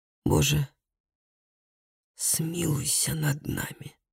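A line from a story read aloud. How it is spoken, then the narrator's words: Whisper. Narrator (Russian): прошептал Калеб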